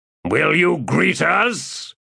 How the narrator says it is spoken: he demanded in a loud voice

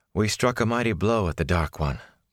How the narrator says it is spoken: Moraine replied, settling herself with a sigh

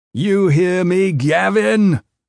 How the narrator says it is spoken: the prisoner shouted

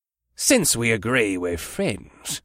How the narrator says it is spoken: the dwarf said in a sly voice

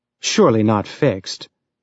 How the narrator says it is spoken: Julie said dryly in his mind

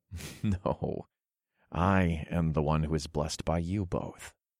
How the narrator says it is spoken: chuckled

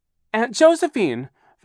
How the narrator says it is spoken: Violet cried

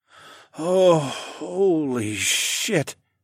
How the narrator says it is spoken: moaned

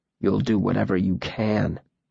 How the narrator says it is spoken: Bast said, his voice low

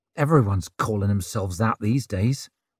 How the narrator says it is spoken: muttered Ricker

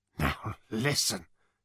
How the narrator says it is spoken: said Ford nervously

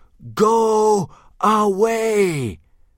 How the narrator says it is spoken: 400 Viking voices screamed as one

